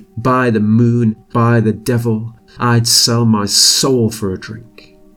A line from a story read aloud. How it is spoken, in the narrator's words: he exclaimed